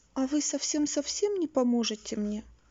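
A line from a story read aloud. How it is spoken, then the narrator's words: Sad question. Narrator (Russian): грустно спросила Элли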